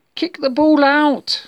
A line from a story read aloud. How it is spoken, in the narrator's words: shouted Bob